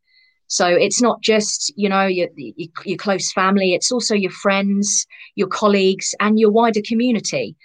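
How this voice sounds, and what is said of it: Non-local regional accent. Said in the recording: “you can probably tell from my accent that I'm not from near you”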